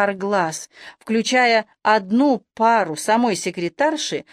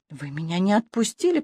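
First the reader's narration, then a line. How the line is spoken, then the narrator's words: Mumble. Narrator (Russian): пробормотала женщина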